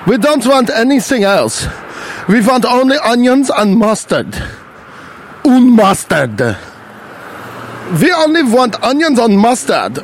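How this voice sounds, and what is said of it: Put-on Nazi character voice. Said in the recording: “stop doing a Nazi voice.”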